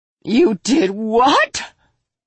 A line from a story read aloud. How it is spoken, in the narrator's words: Mina screeched